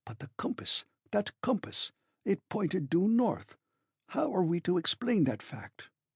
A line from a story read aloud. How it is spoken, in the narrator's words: my uncle murmuring